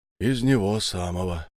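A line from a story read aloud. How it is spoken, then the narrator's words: Heavy exhale. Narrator (Russian): тяжело выдохнул Иван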